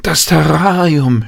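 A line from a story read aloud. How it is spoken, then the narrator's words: Sudden cry. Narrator (German): schrie Jan auf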